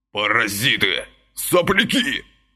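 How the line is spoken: Agitated policeman hissing. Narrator (Russian): шипел взмокший от переживаний милиционер

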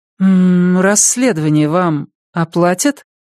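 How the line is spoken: Uncertain question. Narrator (Russian): неуверенно спросила Маша

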